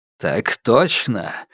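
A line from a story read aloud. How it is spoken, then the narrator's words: Smiling, velvety husky male voice. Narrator (Russian): улыбнулся мужчина, подпуская в голос бархатистой хрипотцы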